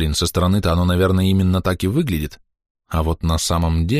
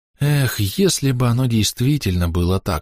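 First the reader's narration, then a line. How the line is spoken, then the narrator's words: Sighing. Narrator (Russian): вздохнул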